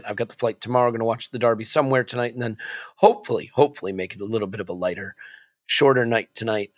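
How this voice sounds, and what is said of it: Strained, worn-out voice. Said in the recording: “you can tell from my voice I'm struggling a bit”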